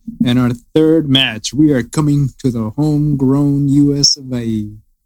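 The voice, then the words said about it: Put-on unidentified accent. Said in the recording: “What accent is that?”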